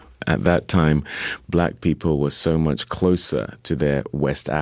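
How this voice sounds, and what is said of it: Usual voice. Nothing is said of it.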